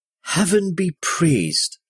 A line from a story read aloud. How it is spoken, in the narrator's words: the woman breathed after he fumbled to remove the dirty rag covering her mouth